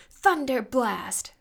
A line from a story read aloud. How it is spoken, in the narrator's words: shouted Storm